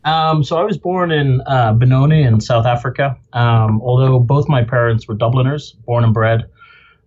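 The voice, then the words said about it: Non-local foreign accent. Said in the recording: “obviously by your accent, that's not your native state”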